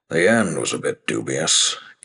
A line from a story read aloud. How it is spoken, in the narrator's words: Kent grumbled